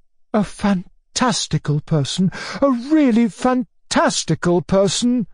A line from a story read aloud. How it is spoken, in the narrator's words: he cried